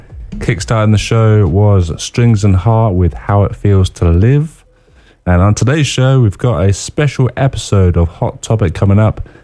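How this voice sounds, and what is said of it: Sick, congested-sounding voice. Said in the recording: “I've got a bit of a virus... I got a virus. So you're going to probably hear that in my voice today, unfortunately.”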